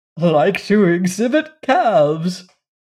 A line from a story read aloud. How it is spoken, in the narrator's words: chuckled Uncle Benjamin